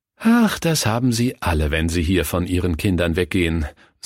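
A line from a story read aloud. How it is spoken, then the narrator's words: Sighing deaconess. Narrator (German): seufzte die Diakonisse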